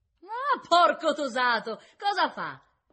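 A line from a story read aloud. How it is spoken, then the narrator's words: Redhead shouting obscenities. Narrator (Italian): disse la rossa, e dondolando con tutto il corpo grasso, premendo la faccia contro le sbarre, cominciò a gridare oscenità senza senso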